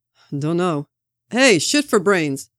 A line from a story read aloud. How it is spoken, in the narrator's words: Sam shouted at Barnes